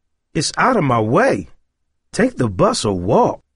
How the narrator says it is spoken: Roiland snapped

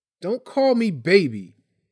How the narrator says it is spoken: Tyree snapped

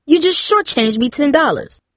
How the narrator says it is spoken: the woman snapped

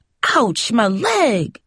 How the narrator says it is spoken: she howled

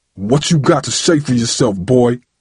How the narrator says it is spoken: He growled

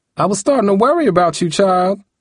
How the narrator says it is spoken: Grandma yelled from the living room

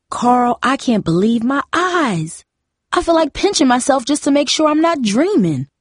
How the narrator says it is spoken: Mom said happily

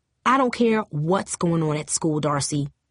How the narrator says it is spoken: her mother snapped

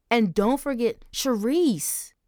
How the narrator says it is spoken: Angel snapped

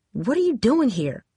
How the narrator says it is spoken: She asked sharply

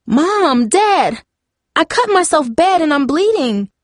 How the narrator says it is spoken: cried

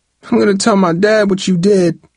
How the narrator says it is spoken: Travis screamed, enraged that Darryl had interfered

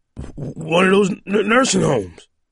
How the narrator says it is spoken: Tuttle stammered

